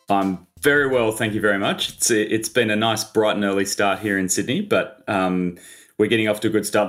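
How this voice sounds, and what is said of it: Australian accent. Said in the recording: “you're from Australia with the accent”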